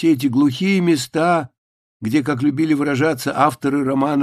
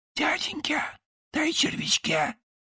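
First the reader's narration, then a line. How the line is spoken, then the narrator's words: Pleading hoarse whisper. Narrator (Russian): вздрагивал, когда у себя за спиной вдруг слышал умоляющий хриплый шепот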